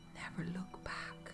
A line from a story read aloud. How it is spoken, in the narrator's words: whisper